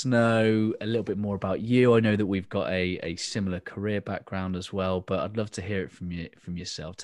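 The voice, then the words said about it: Southwest England accent. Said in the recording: “in England, I'm from the Southwest, which means we all sound like farmers ... This is the farmer England accent?”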